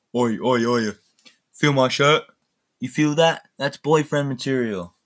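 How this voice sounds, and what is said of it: British accent switching to American. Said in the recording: “I don't know why I just transitioned from British accent to American accent”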